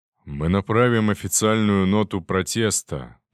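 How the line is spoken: Weary. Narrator (Russian): устало сказал он

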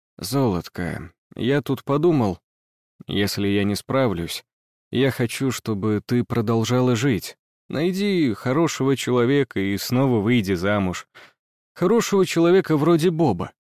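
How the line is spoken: Quiet speech. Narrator (Russian): он тихо проговорил

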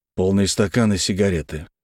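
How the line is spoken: Gruff mutter. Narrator (Russian): буркнул

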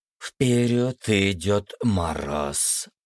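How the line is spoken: Hissing. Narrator (Russian): прошипела Марина

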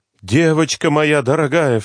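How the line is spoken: Grandmother crying out. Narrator (Russian): вскрикнула бабушка

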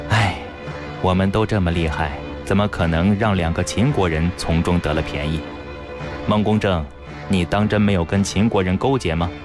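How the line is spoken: Puzzled sigh. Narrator (Chinese): 云当想了半天还是想不明白究竟，叹道

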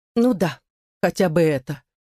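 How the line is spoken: Cold remark. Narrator (Russian): холодно заметила

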